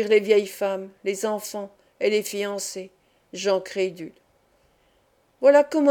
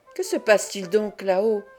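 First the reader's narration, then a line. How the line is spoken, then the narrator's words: Subprior crying out. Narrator (French): s'écria le sous-prieur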